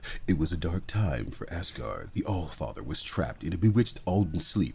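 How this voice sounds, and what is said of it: Dramatic narrator voiceover voice. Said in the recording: “do the whole voice of ... Who's the voiceover person here?”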